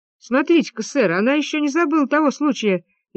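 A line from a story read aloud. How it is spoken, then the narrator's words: Cheerful speech. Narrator (Russian): весело проговорил Генри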